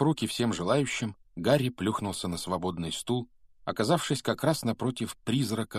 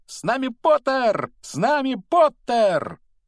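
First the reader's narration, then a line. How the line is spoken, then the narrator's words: Twins yelling at full voice. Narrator (Russian): близнецы Фред и Джордж вопили во весь голос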